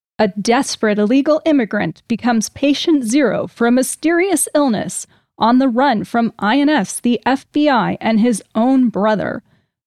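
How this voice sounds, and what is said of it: Dramatic movie trailer voice. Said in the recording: “do it in my movie voice.”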